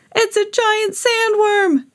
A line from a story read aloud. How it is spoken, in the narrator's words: shrieked another